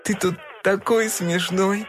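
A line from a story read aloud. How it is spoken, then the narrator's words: Laughing. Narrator (Russian): засмеялась она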